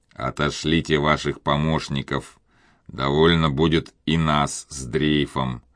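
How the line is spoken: Plain. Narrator (Russian): сказал Мигель доктору

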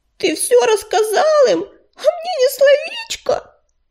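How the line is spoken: Sobbing. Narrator (Russian): всхлипнула она

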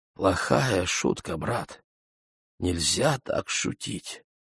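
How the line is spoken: Weak whisper. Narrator (Russian): слабо прошептал

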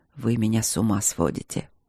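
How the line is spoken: Hoarse whisper. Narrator (Russian): хрипло шепнул он мне

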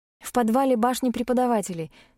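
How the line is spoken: Hurried answer. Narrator (Russian): ответила я торопливо

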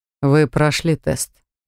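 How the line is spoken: Said through teeth. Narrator (Russian): процедил он

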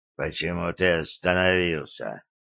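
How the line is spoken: Mumbled. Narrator (Russian): тот пробормотал

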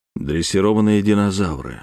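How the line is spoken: Even, calm. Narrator (Russian): сказал я, ровно, спокойно

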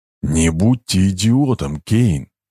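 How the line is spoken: Hissing. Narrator (Russian): прошипел Стрегов

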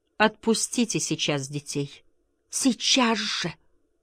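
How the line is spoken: Pleading voice. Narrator (Russian): сказала она умоляющим голосом

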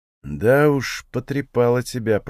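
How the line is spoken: Mutter. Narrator (Russian): пробормотал я

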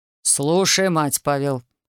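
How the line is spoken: Stern father's interjection. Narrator (Russian): строго вмешался отец

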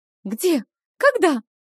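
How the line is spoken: Cry of alarm. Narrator (Russian): вскрикнула Вилма

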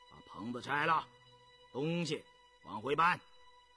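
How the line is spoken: Stern commanding voice. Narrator (Chinese): 印四俨然主子般厉声指挥

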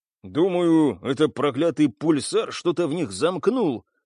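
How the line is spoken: Through gritted teeth. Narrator (Russian): сквозь зубы процедил киборг

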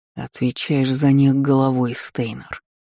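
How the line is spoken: Through gritted teeth. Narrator (Russian): процедил Карх

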